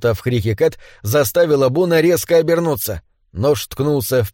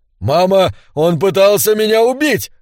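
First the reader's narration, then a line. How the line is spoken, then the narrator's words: Trembling shout. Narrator (Russian): закричал Бун дрожащим голосом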